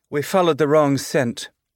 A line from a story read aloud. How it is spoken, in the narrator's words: she said